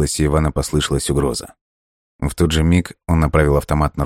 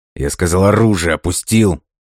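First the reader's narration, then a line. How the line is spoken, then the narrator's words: Through gritted teeth. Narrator (Russian): Процедил сквозь зубы Иван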